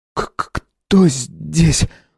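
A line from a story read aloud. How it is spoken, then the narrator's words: Strained, forced out. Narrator (Russian): с трудом выдавил он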